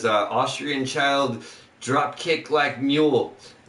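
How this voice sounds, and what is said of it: Arnold Schwarzenegger-style Austrian accent. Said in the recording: “I read that in like an Arnold accent or the Iron Sheik”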